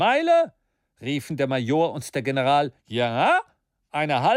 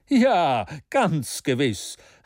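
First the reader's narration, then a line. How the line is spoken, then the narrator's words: Calling out. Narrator (German): rief Maston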